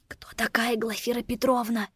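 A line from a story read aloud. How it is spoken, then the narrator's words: Whispered question. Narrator (Russian): Шепотом спросила Лора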